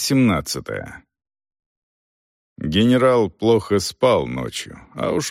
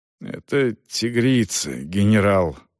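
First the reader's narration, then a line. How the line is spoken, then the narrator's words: Forced out. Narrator (Russian): выдавил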